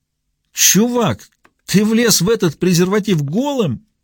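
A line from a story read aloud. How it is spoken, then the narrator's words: Breathless between laughter fits. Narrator (Russian): выдохнул Трей между приступами хохота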